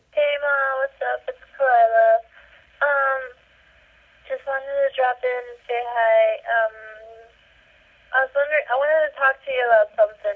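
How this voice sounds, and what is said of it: Crying, Valley Girl accent. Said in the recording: “this is me crying with a Valley Girl accent”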